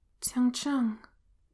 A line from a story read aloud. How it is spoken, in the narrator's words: he whispers, back in the hallucination